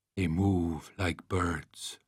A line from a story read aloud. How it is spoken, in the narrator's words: he murmured